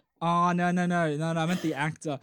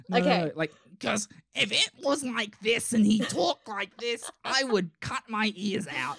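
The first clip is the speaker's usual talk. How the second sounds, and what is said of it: Imitates another person's voice. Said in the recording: “That's a very good impression.”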